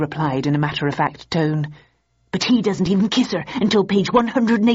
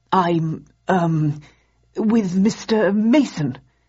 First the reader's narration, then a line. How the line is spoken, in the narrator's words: stammered